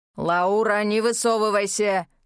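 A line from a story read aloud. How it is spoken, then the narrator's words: Barked. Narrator (Russian): рявкнул Дэн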